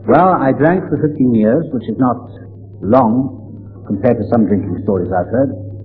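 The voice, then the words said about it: Welsh accent. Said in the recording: “As you can tell by my accent, I'm from across the water. I'm Welsh”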